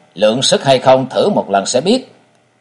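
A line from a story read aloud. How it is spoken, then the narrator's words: Cold young man. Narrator (Vietnamese): Mỹ thiếu niên lạnh lùng nói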